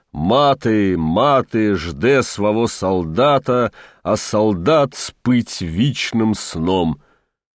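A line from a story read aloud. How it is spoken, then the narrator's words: Booming hoarse great voice. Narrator (Russian): грохотало, тревожил ночь и округу, осевшим от простуд, но все еще великим голосом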